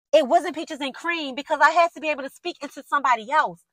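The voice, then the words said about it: Loud, yelling, passionate speech. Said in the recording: “I'm yelling in y'all in y'all ear”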